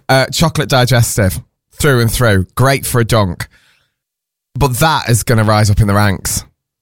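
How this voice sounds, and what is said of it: Hoarse voice. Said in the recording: “I'm going to tell you why I'm hoarse”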